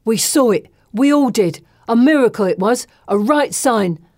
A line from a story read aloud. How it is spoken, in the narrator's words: Bessie exclaims with the passion of the converted